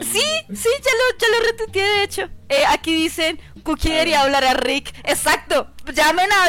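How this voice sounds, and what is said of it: Usual voice. Nothing is said of it.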